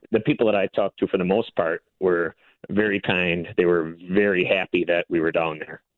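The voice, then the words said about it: Minnesotan accent, clearly not Southern. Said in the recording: “my accent, I can't pretend I'm from Georgia ... they knew I was from out of state immediately as soon as I said hi ... volunteers from Minnesota”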